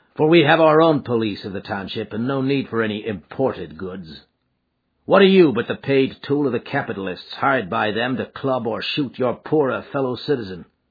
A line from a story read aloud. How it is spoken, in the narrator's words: said McGinty coldly